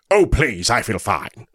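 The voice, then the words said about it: Good Picard impression. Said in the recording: “a very good Picard impression”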